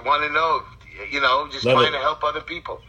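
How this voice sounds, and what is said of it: Brooklyn New York accent. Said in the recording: “I like your accent ... that accent you hear is a Brooklyn accent”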